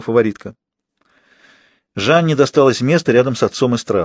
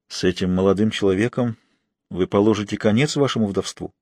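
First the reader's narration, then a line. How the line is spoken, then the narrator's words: Quiet question. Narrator (Russian): священник тихонько спросил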